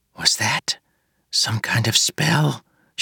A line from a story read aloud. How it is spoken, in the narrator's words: she whispered to Moonlight